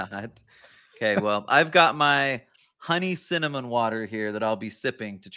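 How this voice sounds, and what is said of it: Sick, congested-sounding voice. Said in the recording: “I'm under the weather. You can probably tell in my voice”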